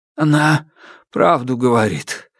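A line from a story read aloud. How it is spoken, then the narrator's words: Hoarse voice. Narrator (Russian): осипшим голосом добавил Панютин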